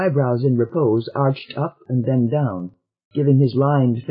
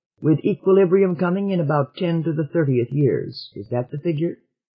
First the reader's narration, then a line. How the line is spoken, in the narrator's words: said the senator calmly